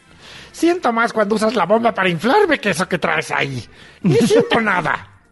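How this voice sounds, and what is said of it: Man doing a witchy woman's voice. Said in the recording (Spanish): “Cada vez tienen peor voz las muñecas inflables ... voz de mujer que se hace voz de mujer ... De bruja será.”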